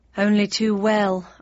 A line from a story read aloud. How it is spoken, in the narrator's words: I sighed, thinking about my old home in unpublished fiction with a mixture of fondness and relief